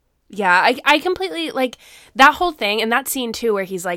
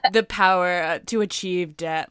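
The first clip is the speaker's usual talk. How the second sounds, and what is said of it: Palpatine impression. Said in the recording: “a really good Palpatine impression.”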